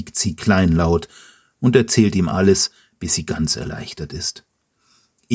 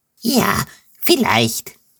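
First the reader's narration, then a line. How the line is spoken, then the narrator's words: Happy relieved squeak. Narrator (German): quiekt Wildewutz froh, dass ihr Papa nicht wirklich böse ist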